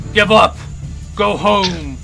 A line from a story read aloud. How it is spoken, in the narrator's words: the goblin grunts at you, saying